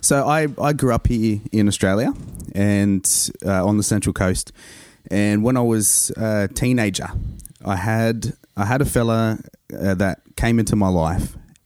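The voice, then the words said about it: Australian accent. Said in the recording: “you've got an Aussie accent.”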